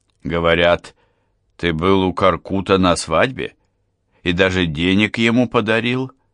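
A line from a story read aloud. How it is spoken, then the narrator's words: Plain. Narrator (Russian): спросил я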